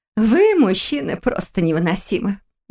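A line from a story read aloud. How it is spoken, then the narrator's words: Laughing. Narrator (Russian): Рассмеялась на это Ада Вилар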